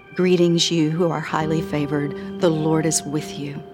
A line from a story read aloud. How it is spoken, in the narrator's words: in a most calming voice, Gabriel said